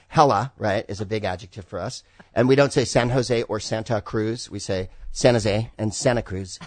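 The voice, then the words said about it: California Bay Area accent. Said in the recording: “what your accent is ... California ... a little Spicoli ... That's a Bay Area accent.”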